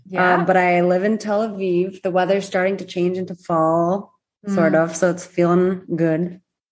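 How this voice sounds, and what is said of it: American Midwestern accent. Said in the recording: “I'm originally from Michigan, so you might hear a good Midwestern accent.”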